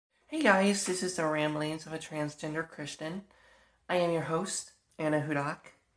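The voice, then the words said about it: Congested, sick, tired voice. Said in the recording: “I know I sound very weird right now. I am not feeling good at all... Very tired. I am coughing up a storm. My nose is beyond stuffed. My throat's just sore”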